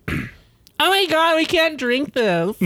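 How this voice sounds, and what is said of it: Imitates a middle-aged woman's voice. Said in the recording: “That's my best impression. ... Oh, a 50-year-old coug.”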